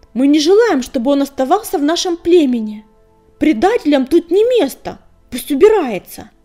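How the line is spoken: Loud shout from crowd. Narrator (Russian): Долгохвост громко выкрикнул из толпы

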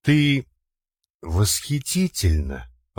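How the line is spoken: Tender whisper. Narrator (Russian): ласково прошептал Иван, утомленно

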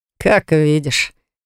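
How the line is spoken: Smirking grunt. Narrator (Russian): хмыкнул Росс

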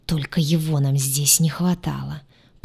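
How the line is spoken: Angry hiss. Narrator (Russian): прошипел рассерженный повелитель

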